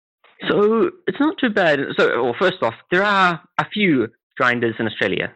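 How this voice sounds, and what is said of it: Australian accent. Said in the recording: “you can tell by your accent that you're from Australia”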